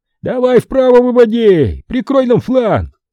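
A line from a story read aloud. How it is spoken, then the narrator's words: Yelling. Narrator (Russian): Монах заорал прикрывавшим их всадникам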